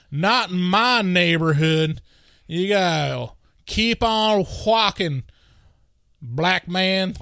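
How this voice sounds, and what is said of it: Caricatured Southern racist voice. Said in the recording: “do that impression a little too well. This caricature of, uh, you know, 1950s Southern ignorant racist”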